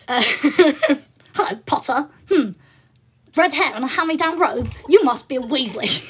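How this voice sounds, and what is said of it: Posh English voice imitating Draco Malfoy. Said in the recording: “this is what the internet thinks sounds like first year Draco, but was just me putting on a posh accent”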